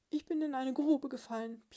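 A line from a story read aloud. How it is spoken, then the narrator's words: Muffled squeak from below. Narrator (German): piepste es gedämpft herauf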